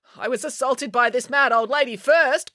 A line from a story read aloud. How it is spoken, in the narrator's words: cried April